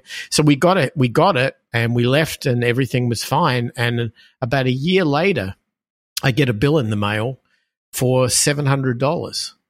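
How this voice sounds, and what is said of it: Australian accent. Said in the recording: “heard the accent and said, "Oh, you're from Australia.”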